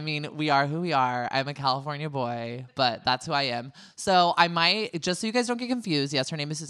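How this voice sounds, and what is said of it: Usual voice. Nothing is said of it.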